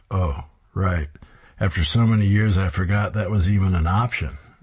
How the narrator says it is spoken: Ted chuckles

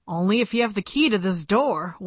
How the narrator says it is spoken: one of the police officers growled

